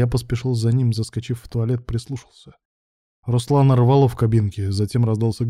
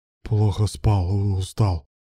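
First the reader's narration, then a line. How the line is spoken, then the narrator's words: Strained, forced words. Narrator (Russian): выдавил Руслан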